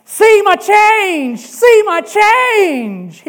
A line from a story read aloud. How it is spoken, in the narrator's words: shouting